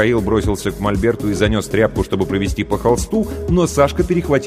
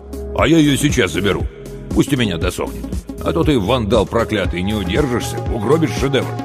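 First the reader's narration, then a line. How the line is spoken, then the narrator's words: Completely serious. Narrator (Russian): абсолютно серьезным тоном добавил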